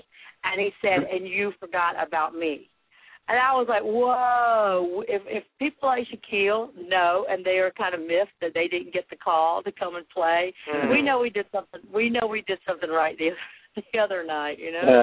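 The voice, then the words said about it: Hoarse, strained voice. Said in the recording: “As you can tell, I've lost my voice.”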